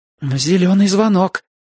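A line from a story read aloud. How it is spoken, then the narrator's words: Uncertain repetition. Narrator (Russian): неуверенно повторил я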